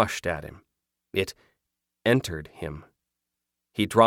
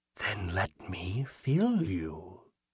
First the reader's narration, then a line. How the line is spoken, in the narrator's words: the figure whispered